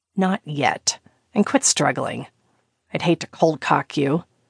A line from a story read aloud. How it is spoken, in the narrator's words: growled